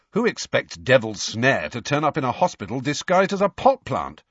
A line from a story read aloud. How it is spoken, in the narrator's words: said Ron sharply